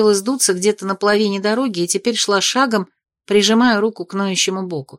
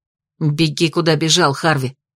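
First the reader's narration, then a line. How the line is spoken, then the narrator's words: Snapping retort. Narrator (Russian): огрызнулась Ада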